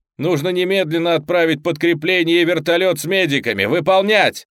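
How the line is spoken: Shouted into microphone. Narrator (Russian): прокричал Марк в свой микрофон

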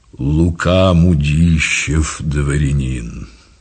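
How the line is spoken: Deep solid bass. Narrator (Russian): произнес солидным басом

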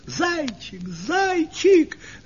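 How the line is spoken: Girls shouting. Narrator (Russian): закричали девочки

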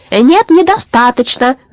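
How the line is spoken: Yelled. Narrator (Russian): заорала тетка Румпумпель

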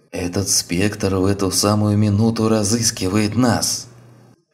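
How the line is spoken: Warning, fading to hoarse whisper. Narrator (Russian): Переходящим в хриплый шепот голосом предупредил доктор

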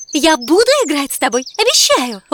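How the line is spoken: Eager impatient exclamation. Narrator (Russian): воскликнула принцесса, сгоравшая от нетерпения

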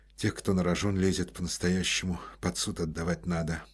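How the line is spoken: Muttered. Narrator (Russian): пробормотал Коростелев

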